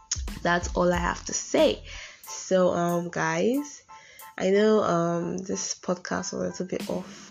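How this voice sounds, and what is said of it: Congested, shaky voice from a cold. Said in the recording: “because of my voice. I have a cold ... I know my voice is a bit shaky at some point.”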